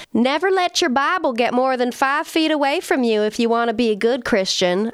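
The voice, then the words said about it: Put-on Southern American accent. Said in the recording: “I don't know why I'm giving them Southern accents.”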